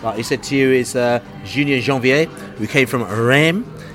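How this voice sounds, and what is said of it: French-accented pronunciation of a name. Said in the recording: “my French accents are just getting better every week”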